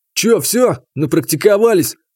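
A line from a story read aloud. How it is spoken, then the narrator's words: Smirking grunt. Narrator (Russian): хмыкнул Игнат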